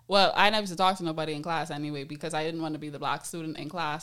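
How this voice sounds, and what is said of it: Typical Bahamian accent. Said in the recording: “as y'all could hear, I have a very typical Bahamian accent”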